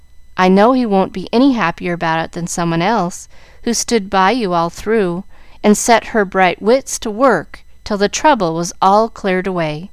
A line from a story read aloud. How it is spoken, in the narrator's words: said Mrs